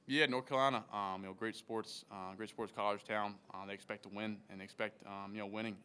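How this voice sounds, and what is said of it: Slight Southern drawl. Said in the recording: “I got a little southern drawl. I got to change that accent a little bit.”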